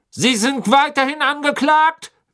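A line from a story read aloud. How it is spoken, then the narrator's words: Barked. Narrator (German): bellte Mr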